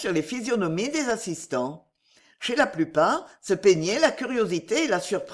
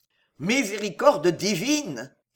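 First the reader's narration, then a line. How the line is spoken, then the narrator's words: General exclaiming. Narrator (French): s'écria le général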